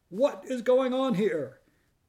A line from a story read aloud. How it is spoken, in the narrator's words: another voice, charged with fury, shout